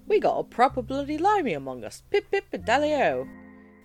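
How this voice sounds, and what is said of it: Awful imitation of English accent. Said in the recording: “he exclaimed in an awful imitation of an English accent.”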